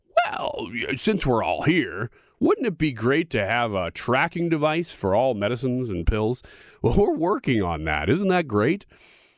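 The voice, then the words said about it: Poor impression of Pfizer CEO. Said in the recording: “That is not a great impersonation”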